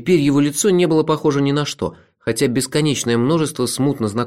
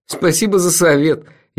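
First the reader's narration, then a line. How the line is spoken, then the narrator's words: Gloating laughter. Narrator (Russian): я расхохотался, упиваясь собственным могуществом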